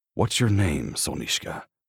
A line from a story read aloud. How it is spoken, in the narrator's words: He murmurs